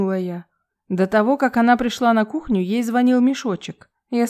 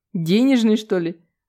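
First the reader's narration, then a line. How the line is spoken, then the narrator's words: Laughing. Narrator (Russian): рассмеялся Василий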